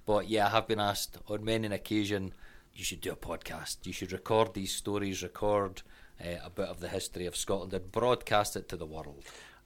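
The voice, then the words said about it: Scottish accent. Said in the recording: “the Scottish brogue, that Scottish accent that people tend to like”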